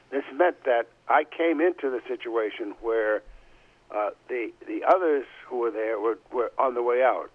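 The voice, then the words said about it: Strained, failing voice. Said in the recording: “I'm sorry, my voice is really going on.”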